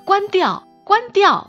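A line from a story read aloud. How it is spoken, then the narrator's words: Agitated, loud. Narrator (Chinese): 他会变得焦躁不安，大声的告诉我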